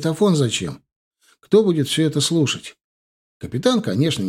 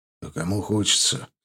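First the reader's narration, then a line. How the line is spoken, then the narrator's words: Sad wry chuckle. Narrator (Russian): грустно усмехнулся тот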